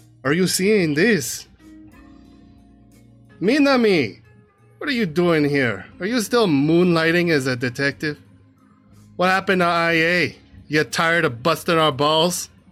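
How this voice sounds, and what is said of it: Character voice with put-on accent. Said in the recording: “Not getting the accent right, hold on.”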